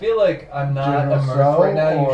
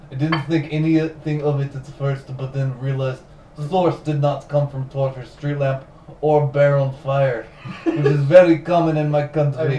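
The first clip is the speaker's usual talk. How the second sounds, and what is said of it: Mock Russian accent. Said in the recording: “You should have done that in a Russian accent.”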